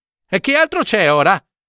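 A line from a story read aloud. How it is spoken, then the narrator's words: Shouted. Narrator (Italian): gridò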